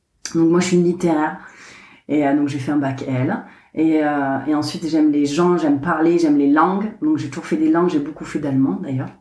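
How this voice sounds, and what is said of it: Southern French accent. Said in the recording (French): “mon petit accent, on sait bien que je viens du sud de la France, je viens de Carcassonne”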